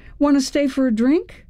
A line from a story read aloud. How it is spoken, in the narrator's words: I blurted out